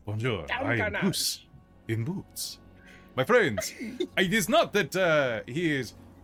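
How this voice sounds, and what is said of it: Put-on French accent. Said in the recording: “Why is he French now?”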